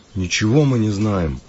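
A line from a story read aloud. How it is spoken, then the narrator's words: Grumbled. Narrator (Russian): буркнул Кирилл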